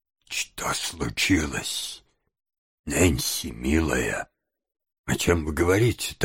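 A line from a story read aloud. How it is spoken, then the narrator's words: Quiet girl's question. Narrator (Russian): так же тихо спросила девушка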